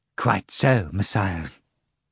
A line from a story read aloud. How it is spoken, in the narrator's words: Fagot Kuroviov replied quietly